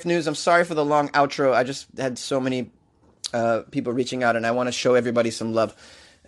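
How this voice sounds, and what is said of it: Out of breath. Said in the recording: “I'm out of breath here.”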